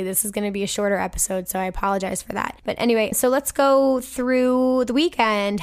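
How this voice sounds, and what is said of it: Hoarse, failing voice. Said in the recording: “my voice is really dying”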